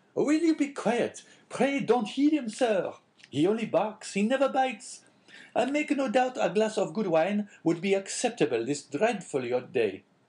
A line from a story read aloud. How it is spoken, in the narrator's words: cried he, speaking to the dog